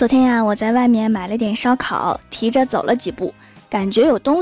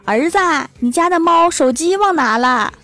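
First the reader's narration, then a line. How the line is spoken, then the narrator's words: Old mother calling from balcony. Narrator (Chinese): 郭大侠的老妈在阳台上面喊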